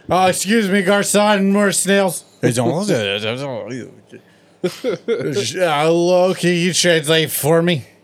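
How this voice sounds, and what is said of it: Imitates another person's voice. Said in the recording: “That was my Mikey impression.”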